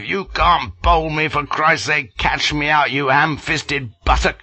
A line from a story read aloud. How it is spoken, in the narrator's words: muttering to myself